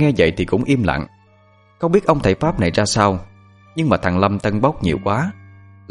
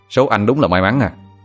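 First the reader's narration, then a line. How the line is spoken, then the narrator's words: Loud laughter. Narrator (Vietnamese): nó cười lớn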